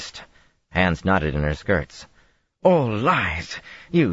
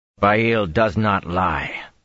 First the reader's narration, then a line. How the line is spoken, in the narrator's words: Perrin growled